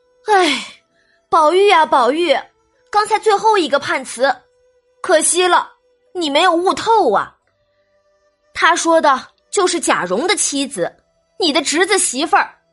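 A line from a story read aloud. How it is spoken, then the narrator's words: Quiet sigh. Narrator (Chinese): 通灵宝玉大石头暗自叹气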